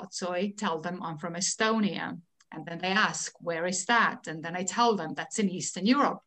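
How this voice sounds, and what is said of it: Estonian-accented English. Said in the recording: “I'm an Estonian living in the United States... but I do have an accent... I could tell that you're a Russian”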